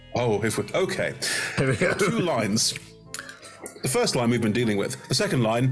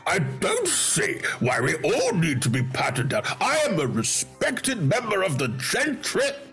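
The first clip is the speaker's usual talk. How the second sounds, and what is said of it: Pompous overbearing lord character voice. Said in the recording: “a fat, overbearing, pompous lord ... Just want to do the voice”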